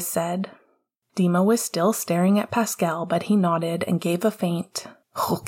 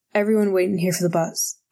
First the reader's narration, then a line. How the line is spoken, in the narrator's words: Alice said, and her voice caught a little